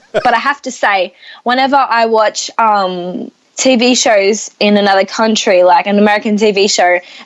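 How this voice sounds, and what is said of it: Australian accent. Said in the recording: “the Australian uh, accent... I'm enjoying that accent”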